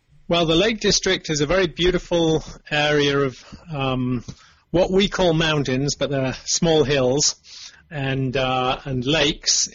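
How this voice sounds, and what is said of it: Northwest English accent, slight Californian. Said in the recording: “I must have gained a little bit of the accent from here, but I still retain a lot of my old English from England, northwest England in the Lake District”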